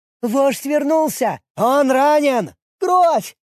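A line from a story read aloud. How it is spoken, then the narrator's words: Goblins shrieking. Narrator (Russian): Гоблины завизжали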